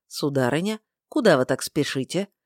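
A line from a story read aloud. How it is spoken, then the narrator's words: Gentle inquiry. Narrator (Russian): мягко поинтересовался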